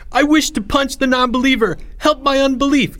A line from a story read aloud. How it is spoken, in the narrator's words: shouted